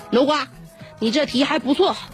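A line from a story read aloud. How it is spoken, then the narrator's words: Angry scolding. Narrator (Chinese): 怒斥道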